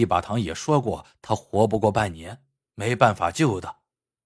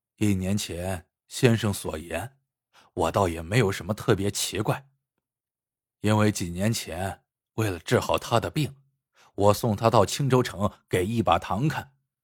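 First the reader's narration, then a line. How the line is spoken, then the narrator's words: Calm, flat. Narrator (Chinese): 王七淡淡的说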